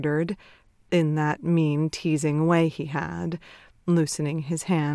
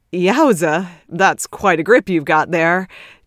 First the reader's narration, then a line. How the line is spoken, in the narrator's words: Ted chuckled